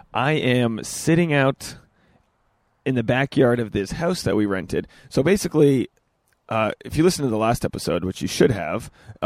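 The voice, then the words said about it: Hoarse, nearly lost voice. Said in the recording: “my voice is pretty much gone”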